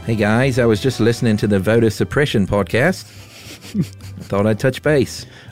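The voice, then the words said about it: Put-on Australian accent. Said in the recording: “Australian ... Wallabies Corner accent? ... It's a good one.”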